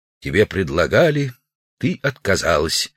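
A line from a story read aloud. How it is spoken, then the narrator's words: Quiet. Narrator (Russian): Удалов негромко сказал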